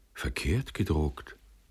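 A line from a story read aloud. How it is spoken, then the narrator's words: Surprised murmur. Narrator (German): murmelte er erstaunt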